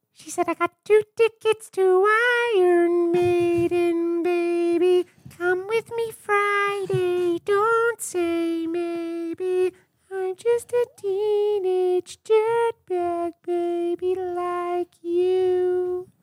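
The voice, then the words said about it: Singing impression hitting high notes. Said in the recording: “you can hit those high notes ... good impression”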